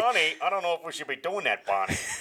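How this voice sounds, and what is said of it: Cartoon character voice. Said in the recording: “Fred Flintstone's in the studio... We've unleashed the voices in my head.”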